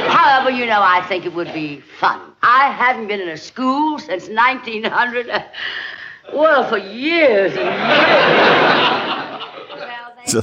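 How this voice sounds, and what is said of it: Grand old Southern accent. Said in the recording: “that's the grand old Southern accent.”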